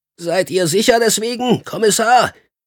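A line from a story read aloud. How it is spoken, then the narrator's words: Shouting over howling storm. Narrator (German): rief und übertönte so das Heulen, durch den peitschenden Sturm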